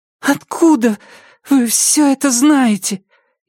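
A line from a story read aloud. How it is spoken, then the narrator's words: Frightened question. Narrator (Russian): испуганно спросила Рэйчел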